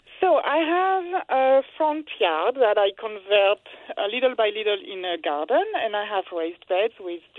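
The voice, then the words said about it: French accent in English. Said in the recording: “you have a wonderful accent. You don't sound like a Philadelphia native. ... I can't hide it. I'm from France.”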